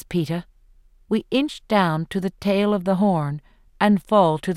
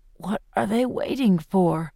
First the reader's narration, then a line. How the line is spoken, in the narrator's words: says Peeta weakly